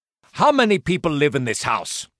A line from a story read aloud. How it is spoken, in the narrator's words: He asked gruffly